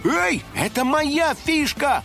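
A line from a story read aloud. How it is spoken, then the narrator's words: Shout, house spirit. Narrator (Russian): крикнул розовый домовой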